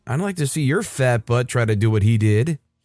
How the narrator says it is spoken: so pissed off that I sarcastically said

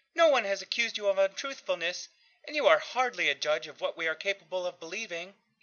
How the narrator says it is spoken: Aunt Mattie said sharply

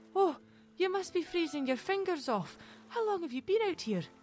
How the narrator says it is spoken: Mary exclaimed

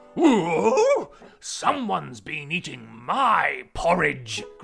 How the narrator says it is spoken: growled the Papa Bear

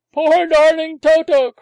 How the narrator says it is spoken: cried the visitor

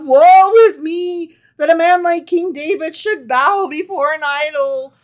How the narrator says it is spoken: Hushai cried aloud

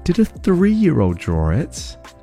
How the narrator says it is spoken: laughed

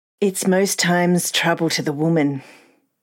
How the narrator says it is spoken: Ria answered, sighing

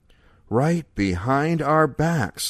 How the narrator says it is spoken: Leo breathed

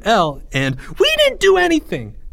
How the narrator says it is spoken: Jeffrey squealed

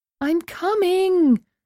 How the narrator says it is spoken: yelled as the pounding redoubled

